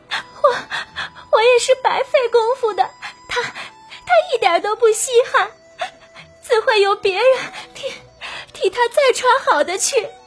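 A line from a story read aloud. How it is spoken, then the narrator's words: Crying, stammering. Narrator (Chinese): 黛玉哭着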